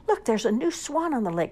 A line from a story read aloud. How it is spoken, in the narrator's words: cried